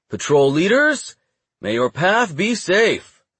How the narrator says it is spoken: The bearded warden called out

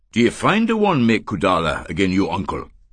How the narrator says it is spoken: he said

